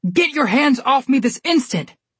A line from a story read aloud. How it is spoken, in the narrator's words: Bob yelled, struggling under the soldiers' restraint